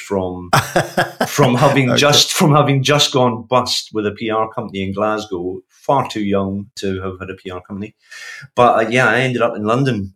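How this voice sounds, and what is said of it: Glaswegian Scottish accent. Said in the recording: “with an accent like yours, I presume you didn't herald from London originally ... Glaswegian”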